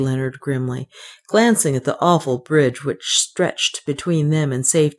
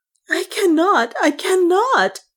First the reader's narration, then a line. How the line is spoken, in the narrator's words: gasped